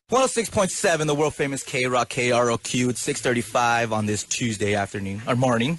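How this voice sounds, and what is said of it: Put-on radio DJ voice. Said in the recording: “This is ... DJ voice.”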